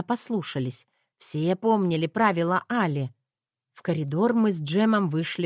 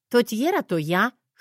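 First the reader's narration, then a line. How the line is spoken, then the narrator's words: Scoffing snort. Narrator (Russian): хмыкнула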